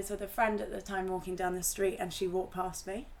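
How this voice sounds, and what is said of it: Irish accent. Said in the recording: “she'd be appalled by my Irish accent right now”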